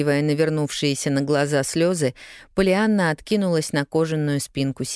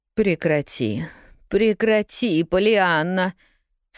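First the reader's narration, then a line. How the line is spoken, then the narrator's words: Repeated moan. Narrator (Russian): снова простонала миссис Кэррио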